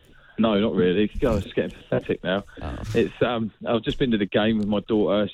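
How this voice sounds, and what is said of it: Hoarse, nearly lost voice. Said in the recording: “She's had to hear me shout. I've nearly lost my voice.”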